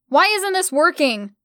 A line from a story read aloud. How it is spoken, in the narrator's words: I yelled out